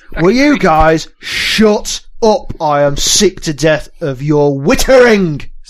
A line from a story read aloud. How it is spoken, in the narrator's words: the Gran shouts over